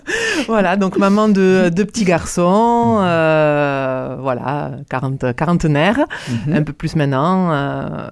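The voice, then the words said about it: Toulouse French accent. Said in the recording (French): “100% toulousaine. Vous l'entendrez à l'accent.”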